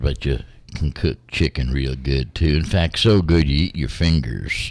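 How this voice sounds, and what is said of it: Southern American accent. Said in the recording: “you can do a very good Southern accent ... you not only do a real good accent”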